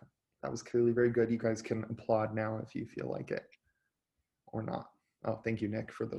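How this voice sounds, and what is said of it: Usual voice. Nothing is said of it.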